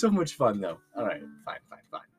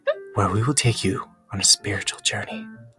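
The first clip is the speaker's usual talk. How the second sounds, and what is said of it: Soothing, relaxing meditation-guide voice. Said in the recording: “My voice is so soothing and relaxing in every way.”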